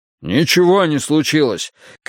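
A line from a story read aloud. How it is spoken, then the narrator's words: Shouted reply. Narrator (Russian): крикнул в ответ Вудвард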